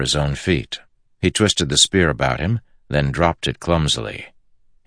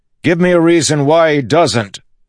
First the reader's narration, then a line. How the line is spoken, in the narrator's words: Kaladin yelled, uncaring if the Ardens heard